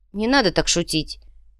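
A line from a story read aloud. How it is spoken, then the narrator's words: Heavy sigh. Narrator (Russian): Инци тяжело вздохнул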